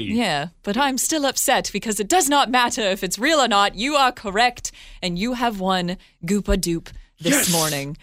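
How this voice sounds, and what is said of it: Put-on British accent. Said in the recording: “this British accent. It's a little David Attenborough.”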